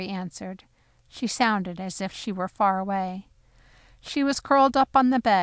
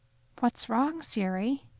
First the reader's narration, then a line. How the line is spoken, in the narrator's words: I asked softly